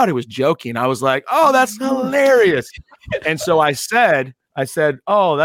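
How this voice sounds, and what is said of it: Usual voice. Nothing is said of it.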